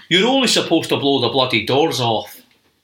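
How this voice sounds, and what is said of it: Put-on Scottish accent. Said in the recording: “I'll do them in a Scottish accent”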